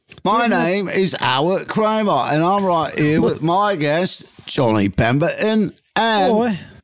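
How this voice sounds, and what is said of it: Put-on British accent. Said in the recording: “Say it in a British accent. ... You want it in British? ... do it in British.”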